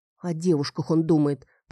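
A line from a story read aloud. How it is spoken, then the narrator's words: Grumbling. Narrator (Russian): пробурчала я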